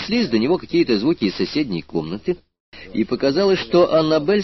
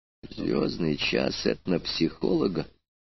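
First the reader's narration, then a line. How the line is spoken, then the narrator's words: Quiet admission. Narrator (Russian): тихо признал аспирант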